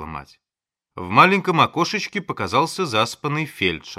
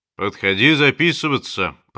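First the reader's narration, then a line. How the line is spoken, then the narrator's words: Deep bass voice. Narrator (Russian): пробасил он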